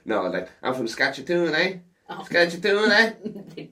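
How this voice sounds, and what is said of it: Imitated Canadian Saskatchewan accent. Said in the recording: “I was just about to do an impersonation ... is that a spot on impression of Saskatchewanians?”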